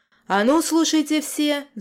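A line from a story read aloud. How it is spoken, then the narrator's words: Roar. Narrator (Russian): взревел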